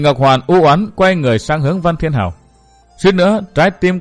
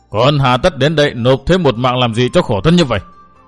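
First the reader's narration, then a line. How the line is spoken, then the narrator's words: Frenzied roar. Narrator (Vietnamese): Phỉ Nguyên Hoàng điên cuồng gầm rống một lần nữa, nói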